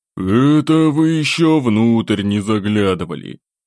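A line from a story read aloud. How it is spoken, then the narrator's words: Sighing reply. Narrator (Russian): вздохнув, ответил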